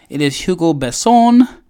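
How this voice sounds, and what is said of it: French-accented pronunciation of a name. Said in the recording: “How you like that accent there?”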